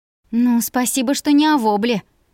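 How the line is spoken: Offended mumble. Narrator (Russian): обиженно пробубнила я

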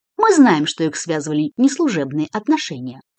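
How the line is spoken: Cold explanation. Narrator (Russian): холодно пояснил Сарумов

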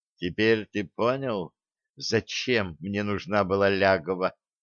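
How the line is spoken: Quiet question. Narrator (Russian): тихо спросила Стесси

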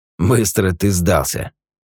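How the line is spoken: Tense snort. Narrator (Russian): хмыкнул Юджин, весь напрягшись

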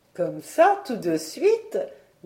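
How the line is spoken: Laughing. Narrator (French): dit la tante Colette en riant

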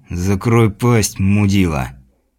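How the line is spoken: Irritated reply through teeth. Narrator (Russian): Раздраженный напарник сквозь зубы ответил

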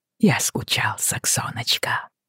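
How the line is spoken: Whisper again. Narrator (Russian): снова прошептал он

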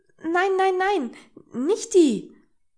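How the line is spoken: Sudden excited protest. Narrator (German): protestierte Hedi plötzlich aufgeregt

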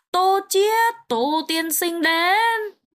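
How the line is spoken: Servant's loud announcement, offstage. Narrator (Vietnamese): Ngoài cửa lại có tiếng hạ nhân cao giọng thông báo

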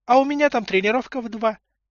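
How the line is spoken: Delighted squeak. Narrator (Russian): пискнула Олька обрадованно

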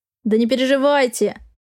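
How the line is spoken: Chuckling. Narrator (Russian): хохотнул Фокин

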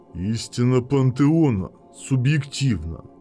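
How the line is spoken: Growling. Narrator (Russian): прорычал Абаддон

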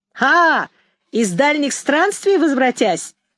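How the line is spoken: Shouted. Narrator (Russian): закричал Ромка

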